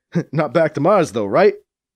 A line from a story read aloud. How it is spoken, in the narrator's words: Drex chuckles at his own joke